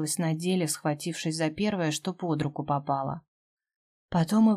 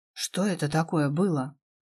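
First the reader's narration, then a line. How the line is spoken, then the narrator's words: Strained, sorrowful, nauseous. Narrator (Russian): Выдавила из себя с прискорбием, осознавая, что к головокружению опять прибавилась тошнота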